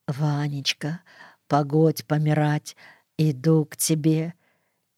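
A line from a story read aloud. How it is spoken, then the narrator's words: Quiet, almost to herself. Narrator (Russian): негромко, почти про себя, говорила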